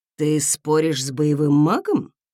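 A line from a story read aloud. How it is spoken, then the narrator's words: Silky, insinuating. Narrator (Russian): вкрадчиво уточнил Редвин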